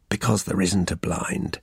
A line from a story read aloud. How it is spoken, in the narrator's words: he said with a quiet chuckle